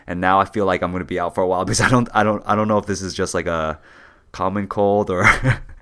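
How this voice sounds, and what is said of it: Raspy voice. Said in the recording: “I got sick, dude ... my voice is a little raspy.”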